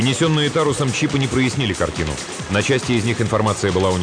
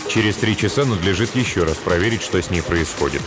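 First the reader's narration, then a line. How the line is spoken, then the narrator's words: Completely calm. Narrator (Russian): сказал он абсолютно спокойно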